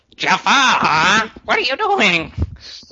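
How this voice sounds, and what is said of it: Poor impression of cartoon parrot. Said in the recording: “that's a horrible impersonation of Iago”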